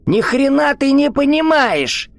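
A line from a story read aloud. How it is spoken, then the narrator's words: Shrill squeal. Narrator (Russian): Взвизгнул хозяин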